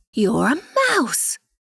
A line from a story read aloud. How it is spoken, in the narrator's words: she exclaimed